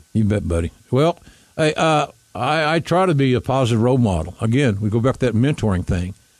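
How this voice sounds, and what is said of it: Southern Oklahoma accent. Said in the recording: “Oklahomans with a southern accent or Oklahoma accent, or it's Southern, but it's Oklahoman”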